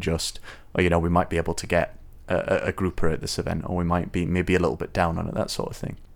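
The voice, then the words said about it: British accent. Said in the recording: “It's the British accent.”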